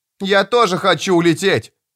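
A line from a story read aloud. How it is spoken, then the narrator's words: Child shouting. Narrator (Russian): крикнул 8-летний мальчуган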